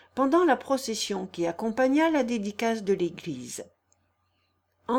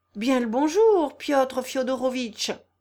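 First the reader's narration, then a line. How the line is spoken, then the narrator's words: Exclaimed. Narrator (French): s'écria Ivan Ivanovitch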